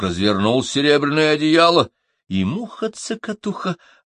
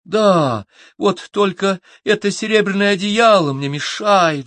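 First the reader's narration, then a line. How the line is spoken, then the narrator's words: Sighing little fly. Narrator (Russian): вздохнула мушка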